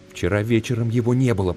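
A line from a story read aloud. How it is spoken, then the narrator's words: Whisper. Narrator (Russian): прошептал он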